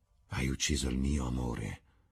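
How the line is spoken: Murmur. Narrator (Italian): mormorò

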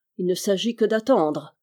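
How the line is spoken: Sneering snicker. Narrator (French): reprit-il en ricanant

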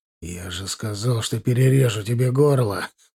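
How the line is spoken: Hoarse rasp over gunfire. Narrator (Russian): прохрипел я, сомневаясь, впрочем, что он слышал меня под гулом стрельбы

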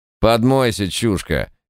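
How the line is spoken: Bark. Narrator (Russian): рявкнул Ганг

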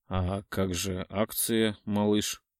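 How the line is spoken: Hoarse and soothing. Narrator (Russian): Мой голос звучит хрипло и успокаивающе

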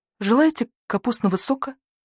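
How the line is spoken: Trembling voice. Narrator (Russian): спросила зайчиха дрожащим голосом

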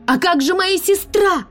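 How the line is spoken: Screaming. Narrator (Russian): закричала я

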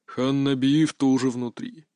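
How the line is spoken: Deep bass voice. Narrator (Russian): пробасил

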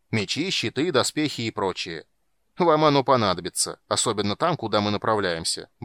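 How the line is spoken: Cheerful gnome. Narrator (Russian): бодро добавил гном

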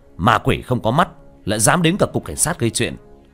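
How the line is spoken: Cold shout. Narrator (Vietnamese): Tiểu Thất lạnh giọng quát lên

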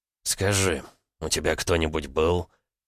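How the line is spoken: Breathless whisper. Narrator (Russian): Ваня, задыхаясь, прошептал

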